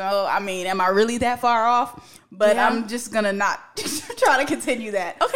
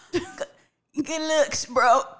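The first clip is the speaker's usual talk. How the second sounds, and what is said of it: Weak imitation of another person's voice. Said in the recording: “I tried to do my Jay-Z impersonation ... I don't think it's really coming through the way I needed to ... that sounded more like a goat”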